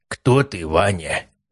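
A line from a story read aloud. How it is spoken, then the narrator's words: Conspiratorial question. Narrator (Russian): заговорческим голосом спросил Герасимов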